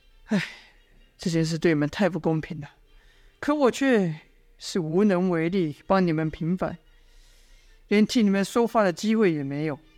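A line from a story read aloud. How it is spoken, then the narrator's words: Sighing. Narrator (Chinese): 范图叹了口气说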